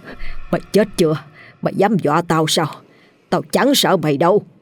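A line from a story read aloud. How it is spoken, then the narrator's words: Harsh, gritted voice. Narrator (Vietnamese): lão vừa gằn giọng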